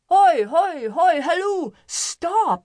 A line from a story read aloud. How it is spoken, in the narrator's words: cried